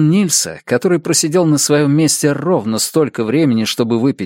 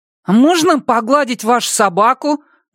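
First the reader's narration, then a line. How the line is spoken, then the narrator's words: Loud question. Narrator (Russian): громко спросил он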